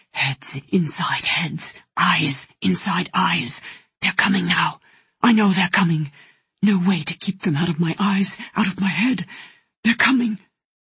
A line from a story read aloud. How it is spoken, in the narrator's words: he whispered